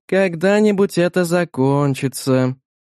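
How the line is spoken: Sighing. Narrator (Russian): вздохнула

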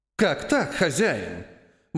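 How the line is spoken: Indignant cat asking. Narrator (Russian): возмущенно спросил кот

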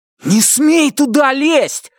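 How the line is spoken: Loud frightening shout. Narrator (Russian): закричал Брайан так, что его младший брат испуганно отскочил назад

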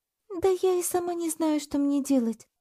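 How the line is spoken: Sighing. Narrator (Russian): вздохнула Кира

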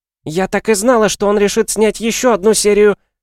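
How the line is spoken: Shrill female voice. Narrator (Russian): знакомый женский визгливый голос … мать Даши

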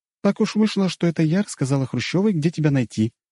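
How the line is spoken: Cheerful. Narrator (Russian): весело сказала Ольга

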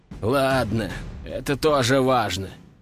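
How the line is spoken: Sighed. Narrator (Russian): вздохнул Кувалдин

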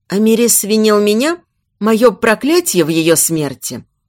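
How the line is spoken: Plain. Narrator (Russian): спросила

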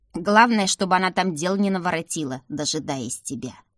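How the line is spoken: Grumbling old woman. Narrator (Russian): проворчала бабушка

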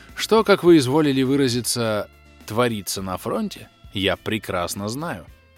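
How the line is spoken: Calm reply. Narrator (Russian): спокойно ответил Батоныч

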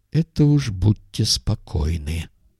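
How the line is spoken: Gloomy. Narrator (Russian): мрачно сказал док

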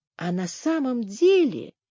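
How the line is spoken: Whisper. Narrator (Russian): прошептала Генриетта

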